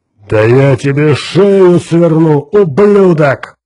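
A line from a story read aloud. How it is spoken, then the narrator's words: Giant's roar. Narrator (Russian): проревел гигант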